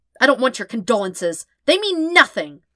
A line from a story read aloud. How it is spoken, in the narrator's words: snapped